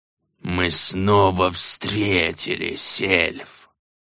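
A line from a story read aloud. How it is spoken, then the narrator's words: Hissing, whistling accent. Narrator (Russian): Со свистящим маргутским акцентом прошипел старый знакомый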